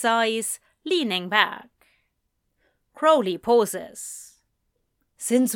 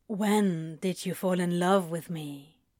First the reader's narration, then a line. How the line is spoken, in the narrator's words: Crowley asks very quietly